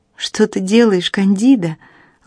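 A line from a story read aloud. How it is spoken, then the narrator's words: Gently asked. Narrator (Russian): ласково спросила Молли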